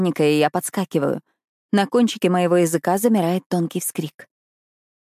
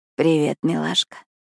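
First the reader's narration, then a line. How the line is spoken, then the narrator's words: Hoarse sleepy whisper. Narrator (Russian): шепчу я хриплым сосна голосом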